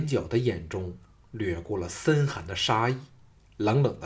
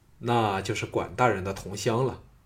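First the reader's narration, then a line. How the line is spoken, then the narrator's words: Calm, indifferent. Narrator (Chinese): 项少龙淡淡的说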